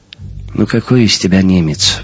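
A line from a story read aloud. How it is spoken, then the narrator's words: Sighing. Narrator (Russian): вздохнул Жером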